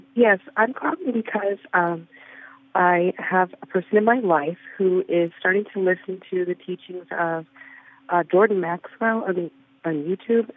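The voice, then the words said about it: Scratchy throat from a cold. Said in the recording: “I have a bit of a cold, so forgive my scratchy throat.”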